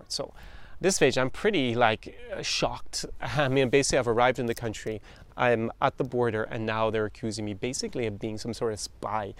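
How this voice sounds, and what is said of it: Irish accent. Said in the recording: “you guys can hear my accent, and I'm obviously not Russian whatsoever... I'm really Irish”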